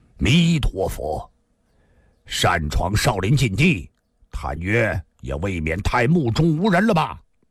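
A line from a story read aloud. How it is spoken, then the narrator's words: Sudden deep voice. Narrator (Chinese): 突然有人沉声地说道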